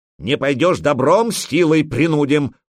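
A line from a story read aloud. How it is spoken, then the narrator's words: Accented growl, burly man. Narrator (Russian): прорычал на скверном ромейском бородатый здоровяк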